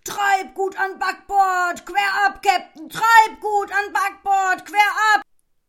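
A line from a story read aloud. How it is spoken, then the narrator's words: Bellowing at loudest voice. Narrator (German): brüllte er mit seiner lautesten Stimme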